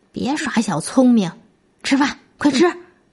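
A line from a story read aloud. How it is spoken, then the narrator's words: Mother grumbling. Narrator (Chinese): 妈妈也嘟嘟囔囔的说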